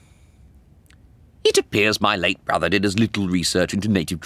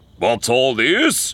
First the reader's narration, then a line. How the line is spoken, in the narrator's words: a voice boomed across the village